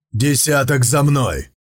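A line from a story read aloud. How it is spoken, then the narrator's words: Barked command. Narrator (Russian): рявкнул Сун Цзиюй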